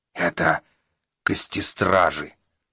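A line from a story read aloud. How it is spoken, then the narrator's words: Monster's whisper. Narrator (Russian): шепнуло темное чудище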